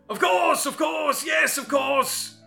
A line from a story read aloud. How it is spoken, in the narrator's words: the man shouted